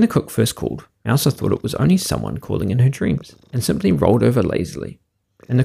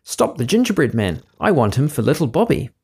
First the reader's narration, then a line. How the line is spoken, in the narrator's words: she cried